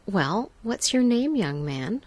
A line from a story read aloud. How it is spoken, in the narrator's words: she asked